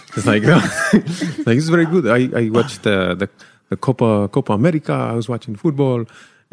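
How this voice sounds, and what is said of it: Put-on Spanish accent, sounds Russian. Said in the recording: “I would do a Spanish accent, but honestly, I'm Spanish. I don't really know how to do it ... So this will probably sound Russian”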